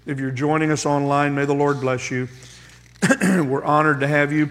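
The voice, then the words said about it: Strained voice, frequent throat clearing. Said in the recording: “Please forgive my voice. ... I'll clear my voice a lot of times”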